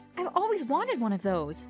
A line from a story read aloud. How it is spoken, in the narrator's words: I squealed